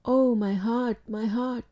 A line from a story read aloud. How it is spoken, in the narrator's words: she murmured in an agonized voice